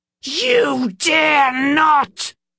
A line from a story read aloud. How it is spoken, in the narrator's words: shrieked